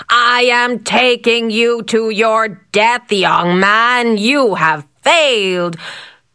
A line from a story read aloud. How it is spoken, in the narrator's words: the huge man bellowed